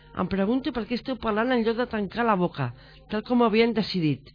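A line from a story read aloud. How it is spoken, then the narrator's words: Monk shouting. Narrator (Catalan): va cridar el tercer monjo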